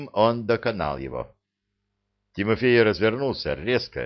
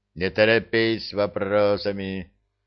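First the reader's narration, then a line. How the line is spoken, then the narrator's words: Calm response. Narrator (Russian): спокойно отреагировал Пахомыч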